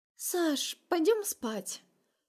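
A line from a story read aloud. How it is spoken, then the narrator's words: Gentle little voice. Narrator (Russian): Нежным голоском произносит пирожок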